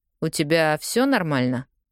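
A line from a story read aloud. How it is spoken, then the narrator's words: Even tone. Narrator (Russian): спрашивает ровным тоном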